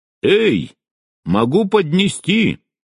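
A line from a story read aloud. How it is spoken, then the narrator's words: Calling after someone. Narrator (Russian): крикнула мне вслед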